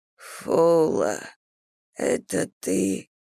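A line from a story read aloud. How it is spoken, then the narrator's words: Muttered. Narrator (Russian): пробормотал Мурха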